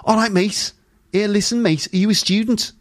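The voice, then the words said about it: Scouse Liverpool accent. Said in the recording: “sounds so Scouse when you do it with a Liverpool accent.”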